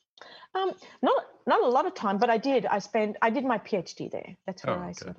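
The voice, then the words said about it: Australian accent. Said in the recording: “Is that where you got your accent?... No, I'm Australian, actually.”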